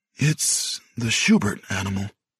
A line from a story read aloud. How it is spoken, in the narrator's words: he murmured